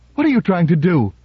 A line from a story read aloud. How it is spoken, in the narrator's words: Her voice rose to a harsh scream